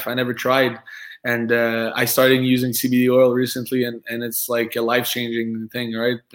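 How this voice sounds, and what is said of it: French accent. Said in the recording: “I'm French, right? I have an accent.”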